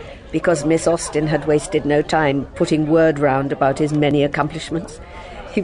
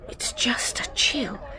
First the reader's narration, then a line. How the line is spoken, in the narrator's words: she whispered